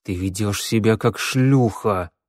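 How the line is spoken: Hiss. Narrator (Russian): прошипел я

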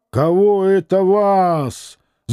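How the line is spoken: Shouting schoolboy. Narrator (Russian): закричал на него рыжий гимназист

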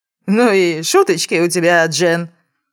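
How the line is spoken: Uncertain chuckle. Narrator (Russian): Хохотнул неуверенно

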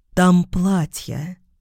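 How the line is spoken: Even, level voice. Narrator (Russian): сказала я ровным голосом

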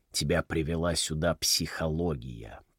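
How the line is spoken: Muttered. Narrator (Russian): пробормотал Хансен

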